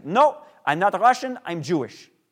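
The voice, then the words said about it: Thick accent, imitating grandmother. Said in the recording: “she would say in her thick accent”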